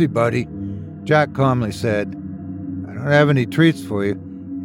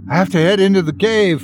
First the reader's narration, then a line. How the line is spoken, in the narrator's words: Jack cried